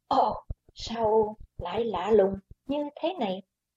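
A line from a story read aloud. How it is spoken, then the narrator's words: Startled soft exclamation. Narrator (Vietnamese): Quái Hòa Thượng kinh hãi kêu khẽ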